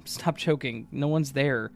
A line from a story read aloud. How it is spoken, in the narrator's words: I laughed and said